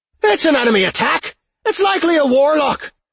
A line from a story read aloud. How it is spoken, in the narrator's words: he shouted